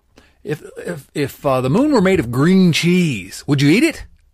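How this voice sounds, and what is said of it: Poor imitation of another person's voice. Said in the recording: “I'm doing a terrible impression, but this is from when Will Ferrell did his impression of Harry Carey”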